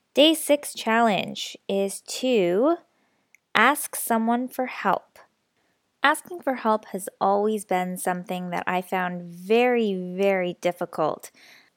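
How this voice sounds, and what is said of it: Slightly raspy, stuffy sick voice. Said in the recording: “I feel like I'm getting a little bit sick. I have that weird stuffy feeling in the back of my nose and my throat, so apologies if my voice is a little bit raspy”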